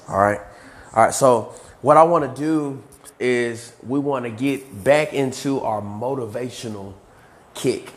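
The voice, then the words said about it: Slightly hoarse voice. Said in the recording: “I know I'm slightly hoarse ... please excuse my hoarseness”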